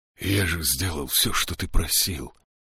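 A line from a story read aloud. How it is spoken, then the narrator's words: Sudden strange hoarse voice. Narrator (Russian): неожиданно заявил Шем незнакомым хриплым голосом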